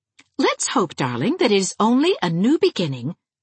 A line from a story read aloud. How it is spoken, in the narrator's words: said Anne cheerfully